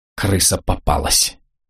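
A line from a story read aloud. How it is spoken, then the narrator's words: Muffled mutter. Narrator (Russian): глухо пробормотал Славик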